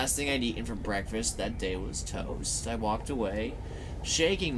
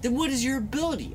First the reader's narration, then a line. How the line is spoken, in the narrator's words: I asked eagerly